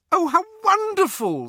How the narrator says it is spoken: squealed

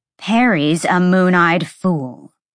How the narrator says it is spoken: Sabine spat

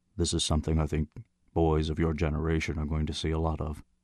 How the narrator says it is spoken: he said quietly

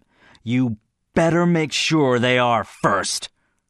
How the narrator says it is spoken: bit off the words harshly

